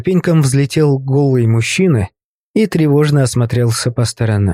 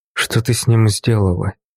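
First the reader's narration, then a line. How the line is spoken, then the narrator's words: Quiet question. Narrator (Russian): негромко спросил я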